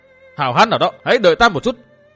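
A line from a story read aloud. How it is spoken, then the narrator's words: Frantic, crazed bellowing. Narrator (Vietnamese): Dương Viễn kêu rống lên như điên dại và hét to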